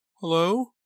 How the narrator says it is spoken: Dina answered in a trembling voice

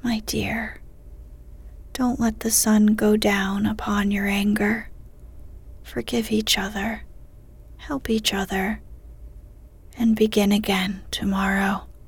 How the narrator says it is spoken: March whispered gently

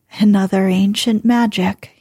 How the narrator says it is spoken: he chuckled

